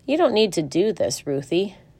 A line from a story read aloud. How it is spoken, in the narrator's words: Alice's father said